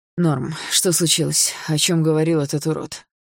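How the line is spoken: Tired question. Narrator (Russian): устало спросил Руслан

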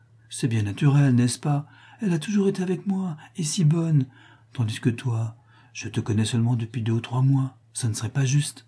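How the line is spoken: Coaxing tender tone. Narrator (French): dit-elle d'un ton câlin

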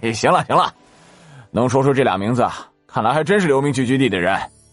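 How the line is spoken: Hearty laughter. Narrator (Chinese): 周应龙哈哈大笑起来

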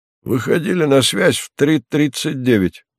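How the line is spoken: Hoarse yet unexpectedly high voice. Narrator (Russian): доложил Шалима голосом сиплым и в то же время неожиданно высоким

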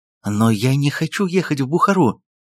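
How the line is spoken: Exclamation. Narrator (Russian): воскликнула Сузге

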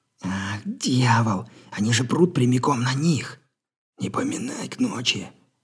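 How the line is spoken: Displeased grumble. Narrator (Russian): недовольно буркнул Джефф

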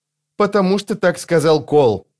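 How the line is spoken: Irritated curt retort. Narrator (Russian): раздраженно отрезал Крокус

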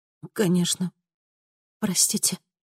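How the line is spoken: Barely audible mumble. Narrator (Russian): чуть слышно пробормотала она

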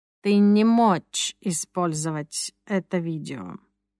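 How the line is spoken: Muttered. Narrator (Russian): пробормотал Юрис

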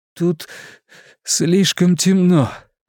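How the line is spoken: Sobbing. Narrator (Russian): Ричи всхлипнул

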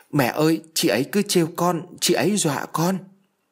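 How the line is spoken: Crying child. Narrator (Vietnamese): Thằng nhóc khóc mếu máo

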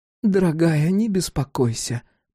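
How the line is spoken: Cooing. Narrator (Russian): проворковала она племяннице

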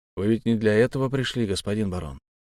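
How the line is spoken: Weary. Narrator (Russian): устало сказал Крещетников

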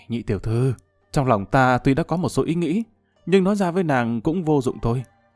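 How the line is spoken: Sighing. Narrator (Vietnamese): Lâm Văn Vinh thở dài một cái nói

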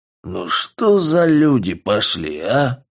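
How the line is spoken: Hoarse drunken man. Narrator (Russian): Хрипел в алкоугаре толстый мужик

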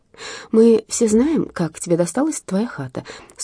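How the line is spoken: Calm prostitute's voice. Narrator (Russian): спокойно произнесла проститутка

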